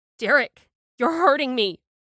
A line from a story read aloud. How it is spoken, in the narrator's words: I wailed